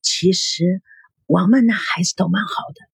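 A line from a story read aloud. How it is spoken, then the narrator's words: Quiet. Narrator (Chinese): 王耀……小声的说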